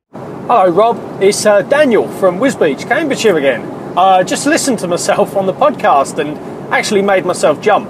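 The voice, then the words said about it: Mangled, slightly mockney London accent. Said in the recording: “my voice is horrendous ... I think it's just a bit mangled, a bit mockney”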